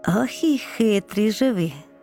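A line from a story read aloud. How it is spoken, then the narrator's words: Laughing doctor. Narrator (Ukrainian): засміявся лікар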